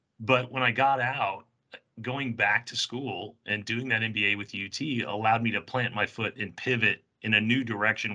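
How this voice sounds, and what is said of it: Hoarse, strained voice. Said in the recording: “I'm losing my voice a little”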